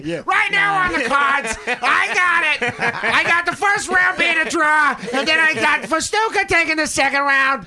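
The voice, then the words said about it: Jim Lampley boxing announcer impression. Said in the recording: “do the ring voice. ... Jim Lampley or from HBO Boxing?”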